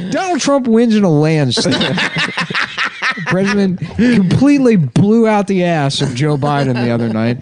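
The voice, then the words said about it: Imitates another person's voice. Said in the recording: “That was a good impression. ... the impression wasn't even that good”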